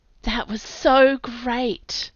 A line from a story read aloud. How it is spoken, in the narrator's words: Hebe breathed in my ear